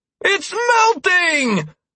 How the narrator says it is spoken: I exclaimed, feeling a second wave of excitement course through my body

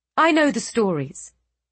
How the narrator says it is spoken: Eliana bit out impatiently

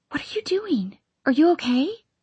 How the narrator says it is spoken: Mara whispers

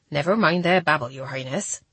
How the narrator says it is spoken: said Gilda quickly, clearly trying to turn the subject

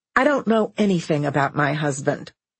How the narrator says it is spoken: Linda said coldly

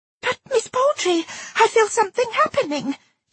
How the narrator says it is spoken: she gasped

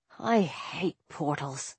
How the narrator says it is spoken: Carter muttered

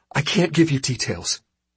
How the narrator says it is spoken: Solace gasped out, her voice gravelly with shed and unshed tears

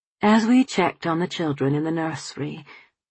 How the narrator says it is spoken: he murmured

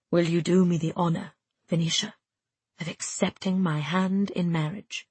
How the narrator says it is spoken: he asked in a half-whisper

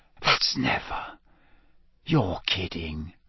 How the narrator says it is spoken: Ron whispered

